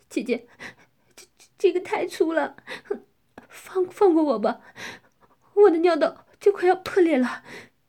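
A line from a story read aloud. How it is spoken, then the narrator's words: Crying. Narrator (Chinese): 我哭泣着说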